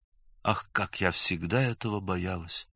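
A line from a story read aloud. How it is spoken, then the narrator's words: Quiet, as if to herself. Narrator (Russian): тихо, как бы про себя сказала она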